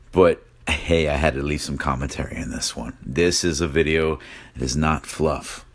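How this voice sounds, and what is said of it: Sick, strained voice. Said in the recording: “apologize for my voice. I'm still really sick.”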